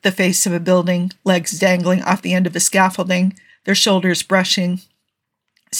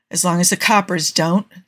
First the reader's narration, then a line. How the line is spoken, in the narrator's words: Steve muttered, but only to cover how much he liked the idea